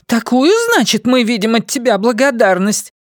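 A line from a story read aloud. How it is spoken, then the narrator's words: Indignant exclamation. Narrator (Russian): негодующе воскликнула Кокуина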